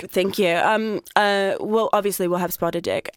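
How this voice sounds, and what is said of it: Put-on accent. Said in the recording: “I love hearing your accent.”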